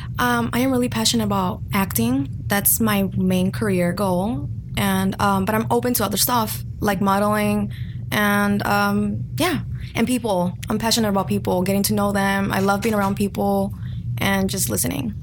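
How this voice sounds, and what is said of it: Speaks with a noticeable accent. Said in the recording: “she has that beautiful accent”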